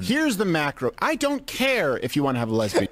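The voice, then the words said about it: Whiny voice. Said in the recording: “he uses his whiny voice”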